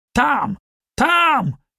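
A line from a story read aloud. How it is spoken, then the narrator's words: Shouting. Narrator (Russian): кричал он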